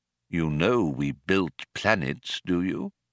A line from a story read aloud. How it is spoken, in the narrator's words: he asked solemnly